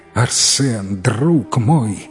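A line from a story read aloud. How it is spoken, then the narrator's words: Exclaiming. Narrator (Russian): воскликнул он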